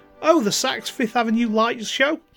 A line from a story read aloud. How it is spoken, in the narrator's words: Emily exclaimed